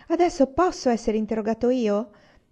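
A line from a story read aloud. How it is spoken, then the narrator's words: Childish shout. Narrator (Italian): gridare con voce infantile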